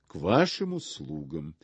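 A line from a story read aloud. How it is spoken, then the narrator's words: Low, sleepy, husky voice. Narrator (Russian): сказал Гриша низким голосом, еще не вполне чистым, еще звучавшим из сна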